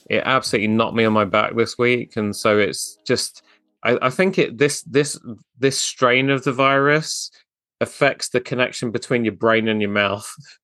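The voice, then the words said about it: Sick, slightly off-sounding voice. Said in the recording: “my voice is a bit weird, but I've had this COVID flu hybrid thing”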